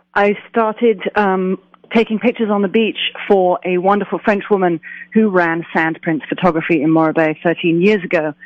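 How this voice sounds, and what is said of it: English accent from London. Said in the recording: “I'm getting just a little bit of an accent in there ... I'm from London, England, originally”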